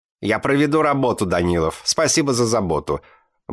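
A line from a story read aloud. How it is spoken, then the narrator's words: Grumbled. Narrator (Russian): буркнула она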